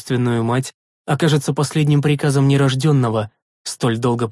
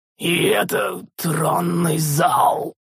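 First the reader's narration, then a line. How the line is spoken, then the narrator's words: Hoarse, spiteful mockery, sorrowful. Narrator (Russian): В хриплом голосе слышалась злобная насмешка вперемешку с непонятной скорбью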